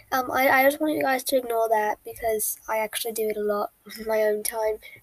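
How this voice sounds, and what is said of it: Amateur put-on British accent. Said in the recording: “Sorry if the British accent isn't good. I'm trying my best. I like to do this accent.”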